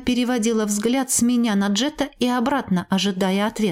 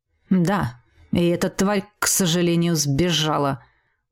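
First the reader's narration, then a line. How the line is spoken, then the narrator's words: Guilty grumble. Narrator (Russian): буркнул Квазар, как мне показалось, виновато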